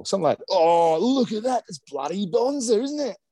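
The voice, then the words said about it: Put-on Australian accent. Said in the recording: “Really whipped out the accent there.”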